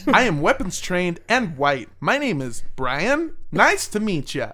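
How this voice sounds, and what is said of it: Put-on stereotypical white-guy voice. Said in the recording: “You sound exactly like a white person.”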